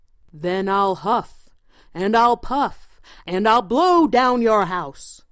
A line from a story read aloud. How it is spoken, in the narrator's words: roared the wolf